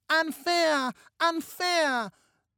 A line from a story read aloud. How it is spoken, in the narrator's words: baby Annie, then 2, wailed a gibberish